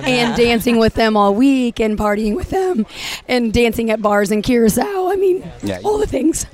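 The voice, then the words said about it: Strained, partly lost voice. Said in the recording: “That's why you've lost your voice. ... That's why I lost my voice.”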